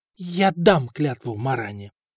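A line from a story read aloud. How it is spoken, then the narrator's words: Strained, forced out. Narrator (Russian): выдавила из себя Мария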